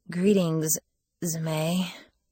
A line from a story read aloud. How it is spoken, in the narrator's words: I said weakly